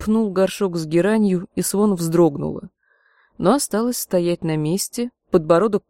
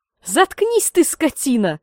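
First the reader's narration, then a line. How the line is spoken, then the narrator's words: Woman screaming. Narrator (Russian): закричала женщина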